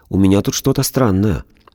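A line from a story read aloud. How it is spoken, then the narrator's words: Timid speech. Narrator (Russian): робко сказала Валя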